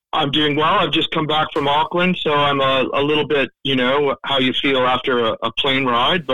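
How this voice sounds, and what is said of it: Canadian accent. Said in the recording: “with an accent like that, I thought maybe you were flying from more further afields. Where is that accent from? ... I'm Canadian. I'm from Toronto.”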